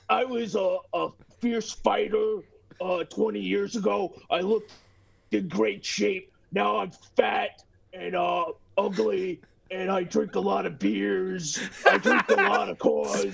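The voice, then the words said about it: Imitates another person's voice. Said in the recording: “Stuttering John impression ... Spot on ... does a perfect Stuttering John impression.”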